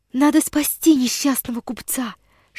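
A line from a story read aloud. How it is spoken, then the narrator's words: Whisper. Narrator (Russian): шептала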